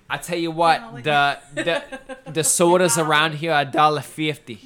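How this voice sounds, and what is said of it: Made-up put-on accent. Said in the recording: “What accent was that? ... He made it up as he was going.”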